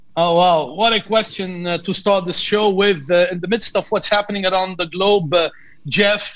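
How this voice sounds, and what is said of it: Lebanese accent. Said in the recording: “where is your accent from? So I know you're from Lebanon.”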